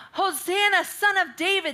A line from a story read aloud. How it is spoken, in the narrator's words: And children were yelling out